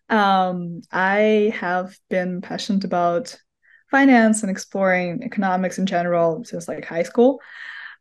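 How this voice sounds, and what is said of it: Russian accent. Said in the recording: “originally I'm from Moscow, Russia, hence my accent”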